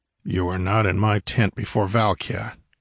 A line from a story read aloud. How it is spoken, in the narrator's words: answered Conan grimly